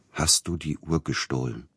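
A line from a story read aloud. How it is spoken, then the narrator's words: Quiet question. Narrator (German): fragte er leise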